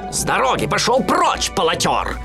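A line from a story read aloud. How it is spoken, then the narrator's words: Shout. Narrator (Russian): кричал Живодер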